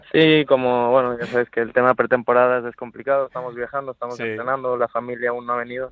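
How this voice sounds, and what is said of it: Spanish speaker with marked Mexican accent. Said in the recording (Spanish): “se te ha quedado hasta acento mexicano, macho... el acento eh, tan marcado”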